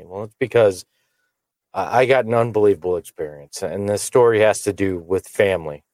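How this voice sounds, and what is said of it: Voice sounds a little off. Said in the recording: “my voice is a little funny”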